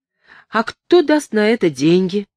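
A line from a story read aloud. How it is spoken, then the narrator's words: Exclaiming. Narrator (Russian): воскликнул Артур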